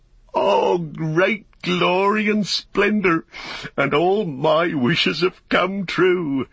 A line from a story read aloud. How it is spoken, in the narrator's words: he laughed aloud for sheer delight, and he stood up and cried